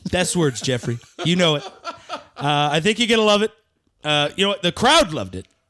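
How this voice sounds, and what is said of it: Imitates another person's voice. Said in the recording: “will just be impersonating Trump until we cue”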